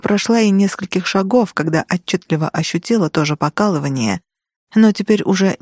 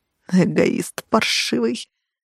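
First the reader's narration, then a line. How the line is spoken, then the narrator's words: Through gritted teeth. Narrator (Russian): процедила я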